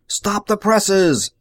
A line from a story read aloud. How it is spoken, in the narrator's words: he yelled into the speaking tube